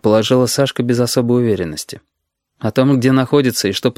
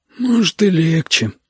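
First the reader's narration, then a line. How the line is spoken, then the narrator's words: Glum agreement. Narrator (Russian): уныло согласился Витя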